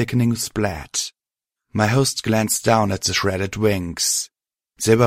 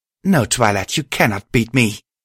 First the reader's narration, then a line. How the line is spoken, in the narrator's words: she growled